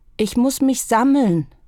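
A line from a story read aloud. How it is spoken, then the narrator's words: Calling to the sky. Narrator (German): rief er in den Himmel hinein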